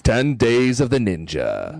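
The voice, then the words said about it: Radio announcer voice. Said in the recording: “in your radio announcer voice”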